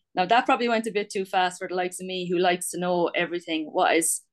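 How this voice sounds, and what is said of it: Irish accent. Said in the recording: “I have this lovely Irish accent”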